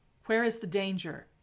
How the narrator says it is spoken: he asks

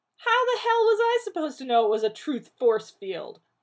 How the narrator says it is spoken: John barked

